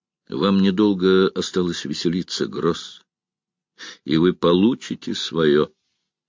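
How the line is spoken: Calm. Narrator (Russian): Стив ... спокойно произнес

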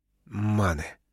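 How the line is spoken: Growl through clenched teeth. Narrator (Russian): стиснув зубы, прорычал Бэйнс

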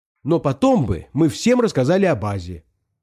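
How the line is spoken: Exclaiming. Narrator (Russian): воскликнул Пашка

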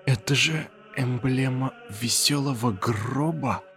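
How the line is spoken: Strained dry-throated voice. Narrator (Russian): выдавил я сквозь сухое горло

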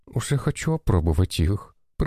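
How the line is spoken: Girl's mutter. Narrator (Russian): пробормотала меднокожая девушка

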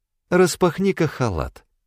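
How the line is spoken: Tender request. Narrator (Russian): Попросила она ласково

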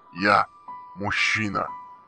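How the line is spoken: Pitiful, unsure. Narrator (Russian): В полной тишине это прозвучало жалко и неуверенно

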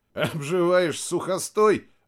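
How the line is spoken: Laughing. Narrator (Russian): рассмеялся Максим

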